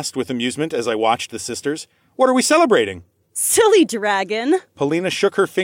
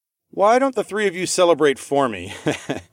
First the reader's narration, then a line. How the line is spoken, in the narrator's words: I laughed